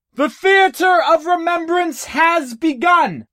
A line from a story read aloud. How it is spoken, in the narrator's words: Jen roared